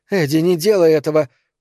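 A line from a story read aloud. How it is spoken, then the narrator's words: Hoarse rasp. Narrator (Russian): прохрипела Эльза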